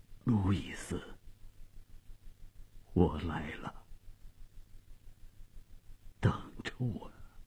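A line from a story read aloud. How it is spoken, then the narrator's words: Trembling, faint voice. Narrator (Chinese): 费迪南用颤抖而微弱的声音说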